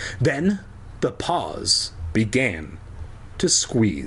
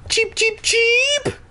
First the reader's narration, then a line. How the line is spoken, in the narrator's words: I squealed